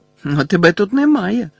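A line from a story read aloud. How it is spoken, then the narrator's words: Exclaimed. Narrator (Ukrainian): вигукнув Гаррі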